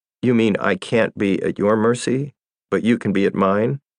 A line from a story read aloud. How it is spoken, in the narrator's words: I laughed